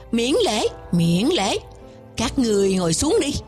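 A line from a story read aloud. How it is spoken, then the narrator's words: Smiling. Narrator (Vietnamese): Đạo Huyền chân nhân mỉm cười nói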